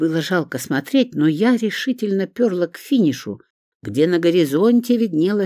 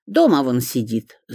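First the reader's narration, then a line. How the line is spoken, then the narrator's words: Angry snort. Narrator (Russian): зло фыркнула Шурка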